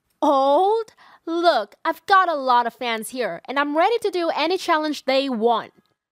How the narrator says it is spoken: My mom angrily shouted

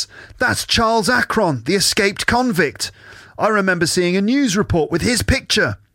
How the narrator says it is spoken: June gasps

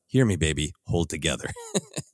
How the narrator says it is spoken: quietly

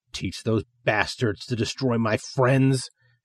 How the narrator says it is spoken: she growls

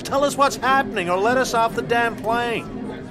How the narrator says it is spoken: Someone else yelled

